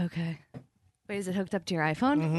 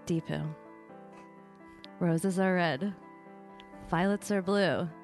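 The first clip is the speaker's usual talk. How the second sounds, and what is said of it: Sultry, seductive voice. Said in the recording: “I'll use my sexy voice... Yeah, use your sexy voice.”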